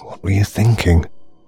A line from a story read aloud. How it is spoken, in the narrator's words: muttered to himself unhappily